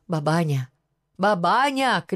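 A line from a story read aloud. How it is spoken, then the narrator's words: Shout. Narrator (Russian): крикнул он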